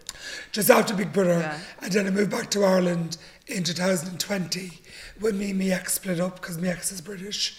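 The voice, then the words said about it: Hoarse voice. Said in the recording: “Sorry, by the way, for my hoarse voice.”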